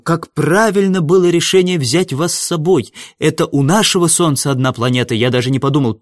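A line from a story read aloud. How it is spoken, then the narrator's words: Exclaimed. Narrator (Russian): Павлик воскликнул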